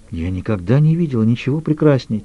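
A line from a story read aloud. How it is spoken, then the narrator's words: Quiet confession. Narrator (Russian): тихо призналась Эмма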